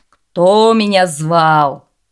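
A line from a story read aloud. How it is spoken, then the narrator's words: Booming spirit's question. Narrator (Russian): громовым голосом спросил горный дух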